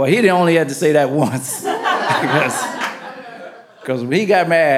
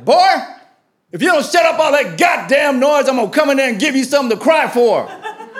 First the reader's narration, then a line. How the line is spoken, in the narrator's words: From the comfort of his bedroom, he shouted